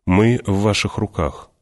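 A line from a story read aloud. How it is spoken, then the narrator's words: Calm. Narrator (Russian): спокойно сказал он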